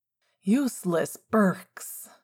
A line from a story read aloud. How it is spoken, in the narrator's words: James grumbled over what sounded like a wardrobe being slammed closed